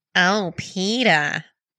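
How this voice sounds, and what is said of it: Lois Griffin cartoon character voice. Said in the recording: “my Lois Griffin impersonation”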